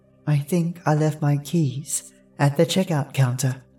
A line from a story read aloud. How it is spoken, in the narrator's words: she sighed